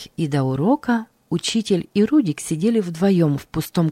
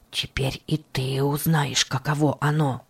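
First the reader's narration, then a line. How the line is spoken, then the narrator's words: Whisper. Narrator (Russian): Алекс, проходя мимо, шепнул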